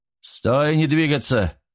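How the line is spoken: Shouted. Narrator (Russian): крикнул Мичман

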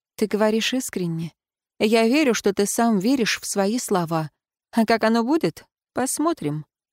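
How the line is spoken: Soft, gentle. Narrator (Russian): сказала мягко

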